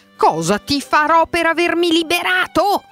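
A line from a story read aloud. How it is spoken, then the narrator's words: Terrible shout. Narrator (Italian): gridò con voce terribile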